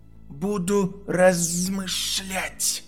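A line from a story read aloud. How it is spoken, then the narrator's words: Hissing. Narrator (Russian): прошипел Гарри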